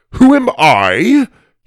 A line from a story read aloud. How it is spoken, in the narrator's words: repeated with a scoff